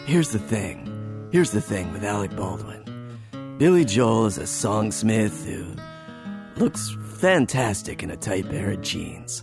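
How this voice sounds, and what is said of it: Raspy imitation of another person's voice. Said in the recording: “my Alec Baldwin impression there for you. It's gotten better. ... the more I yell, the raspier my voice gets.”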